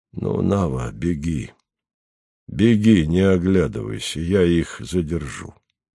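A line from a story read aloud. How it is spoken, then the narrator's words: Quiet, after deep sigh. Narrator (Russian): Атос глубоко вздохнул, сказал Наве негромко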